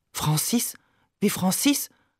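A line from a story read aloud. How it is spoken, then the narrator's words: Murmuring. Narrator (German): murmelt sie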